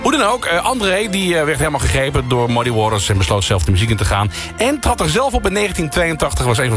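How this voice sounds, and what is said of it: Usual voice. Nothing is said of it.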